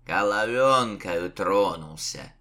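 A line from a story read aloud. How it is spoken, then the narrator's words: Scornful snort. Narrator (Russian): хмыкнул Лукьян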